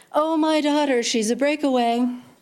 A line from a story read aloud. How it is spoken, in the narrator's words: joked, following up the witticism with a bit of tattered laughter